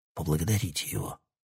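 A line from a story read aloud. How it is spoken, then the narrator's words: Fawning whisper. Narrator (Russian): заискивающий шепот Сэмсона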